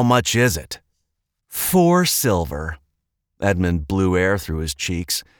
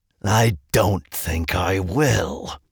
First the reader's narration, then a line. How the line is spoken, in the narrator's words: the man growled